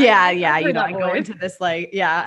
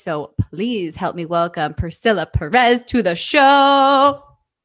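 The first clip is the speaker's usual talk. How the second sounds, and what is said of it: Announcer-style presenting voice. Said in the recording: “That's my speaker, my announcer voice. ... I totally have a microphone voice”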